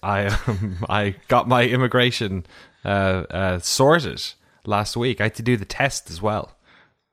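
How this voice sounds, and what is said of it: Put-on American accent. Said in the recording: “Should I test out my American accent now?”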